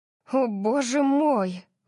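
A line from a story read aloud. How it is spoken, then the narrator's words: Stunned breathless gasp. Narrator (Russian): выдохнула я, совершенно ошеломленная жестокостью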